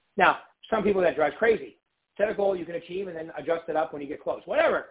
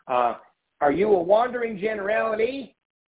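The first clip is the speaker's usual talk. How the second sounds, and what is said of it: Put-on Dallas accent. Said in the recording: “That's my Dallas accent.”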